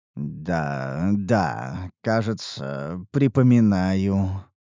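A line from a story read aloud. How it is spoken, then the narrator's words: Mutter. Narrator (Russian): пробормотал я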